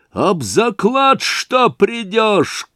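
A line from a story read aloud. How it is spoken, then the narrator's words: Shouted after someone. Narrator (Russian): крикнул ему вдогонку Разумихин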